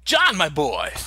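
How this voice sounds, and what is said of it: Christopher Walken-style impression voice. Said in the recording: “You're going to hear a lot of walk-in accents today ... Christopher Walken”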